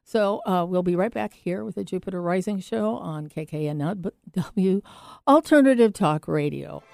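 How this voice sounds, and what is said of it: Voice starting to give out. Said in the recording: “My voice is going a little bit.”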